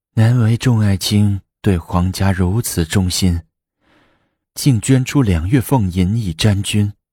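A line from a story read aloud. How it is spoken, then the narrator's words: Delighted sigh. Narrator (Chinese): 武则天心里喜悦，难表叹道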